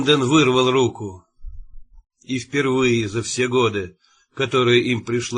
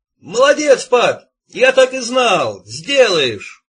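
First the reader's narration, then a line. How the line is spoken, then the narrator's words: Joyful shout. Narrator (Russian): С сияющей физиономией он закричал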